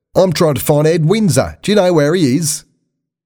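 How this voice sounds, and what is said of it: Put-on Australian accent. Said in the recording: “heard a voice with an Australian accent.”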